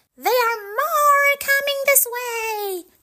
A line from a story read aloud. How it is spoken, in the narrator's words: she yelled